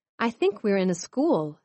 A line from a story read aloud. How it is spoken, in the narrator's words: said Swift